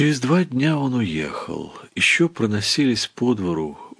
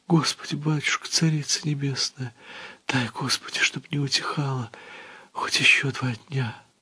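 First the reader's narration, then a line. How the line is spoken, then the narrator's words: Tearful whisper. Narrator (Russian): слизывая с губ слезы, стала шептать под гул метели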